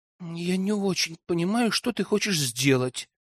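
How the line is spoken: Young woman mumbling. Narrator (Russian): пробормотала девушка

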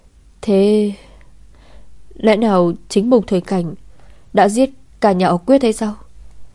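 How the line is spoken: Trembling, anxious question. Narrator (Vietnamese): Trái tim đập dữ rồi, Quyết Ngọc run rẩy hỏi

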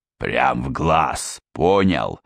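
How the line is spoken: Slurred growling. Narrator (Russian): невнятно рычал Одноглазый

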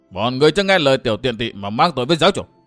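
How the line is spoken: Terrified old man shouting. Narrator (Vietnamese): Tứ cấp lão nhân kinh hoàng quát lớn

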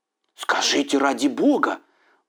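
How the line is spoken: Pleading. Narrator (Russian): взмолился Джонни, растерянно

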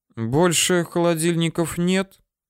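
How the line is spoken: Girl asking plaintively. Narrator (Russian): как-то жалобно спросила девушка

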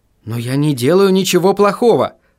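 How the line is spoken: Exclamation. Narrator (Russian): воскликнул Вильям

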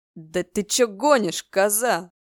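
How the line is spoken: Yelling skull, cooling ardor. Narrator (Russian): Заорал череп, чувствуя, что его любовный запал медленно пропадает

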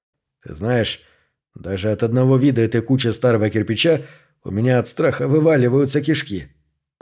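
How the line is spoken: Fearful mutter. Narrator (Russian): пробормотал Смитбек

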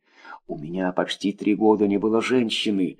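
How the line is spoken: Whispering into ear. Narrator (Russian): шептал он мне в ухо

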